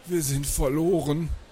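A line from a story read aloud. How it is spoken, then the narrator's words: Croaked. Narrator (German): krächzte er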